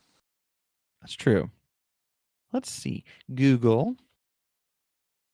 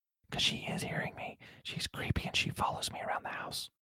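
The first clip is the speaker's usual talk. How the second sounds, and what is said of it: Whispering. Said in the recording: “why I'm whispering”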